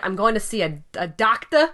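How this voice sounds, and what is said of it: Put-on Bronx accent. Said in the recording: “I'll definitely will not do that accent ever again ... Bronx ... Accent?”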